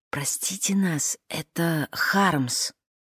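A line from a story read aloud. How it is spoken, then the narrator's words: Whisper. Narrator (Russian): Клара прошептала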